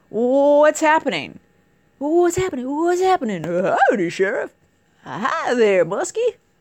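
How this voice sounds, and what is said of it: Deputy Dawg cartoon voice. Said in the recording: “my deputy dog impersonation. ... I like to do cartoon voices.”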